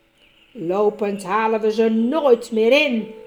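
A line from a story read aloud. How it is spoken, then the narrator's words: Dwarf growling. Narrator (Dutch): gromde de dwerg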